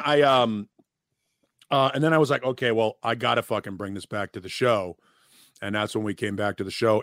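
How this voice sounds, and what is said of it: Scratchy, strained voice. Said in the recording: “you can even still hear it in my voice. I fucked my voice up pretty good trying to throw that up. ... having a scratchy throat for a couple of days now”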